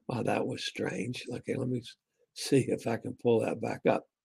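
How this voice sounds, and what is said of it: Strained, failing voice. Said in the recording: “now my voice is going.”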